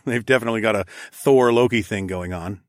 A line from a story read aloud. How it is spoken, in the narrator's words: I chuckled